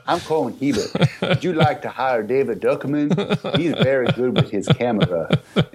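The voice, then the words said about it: Put-on Southern accent. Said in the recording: “though I'm Canadian, I speak with a Southern accent.”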